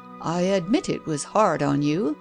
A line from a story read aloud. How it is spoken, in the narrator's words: the man in grey observed kindly